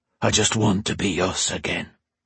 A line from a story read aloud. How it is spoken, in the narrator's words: Taryn breathed into her neck